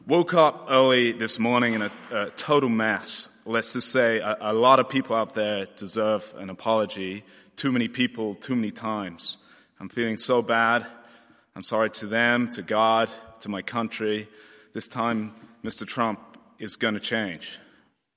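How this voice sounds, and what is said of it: Put-on American accent. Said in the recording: “Let me try and read it in an American accent. Forgive me if it's not very good.”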